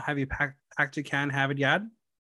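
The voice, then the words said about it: Mock Boston accent. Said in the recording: “how do you feel about the Boston accent? ... I'm very well familiar with the accent ... I would just make fun of people”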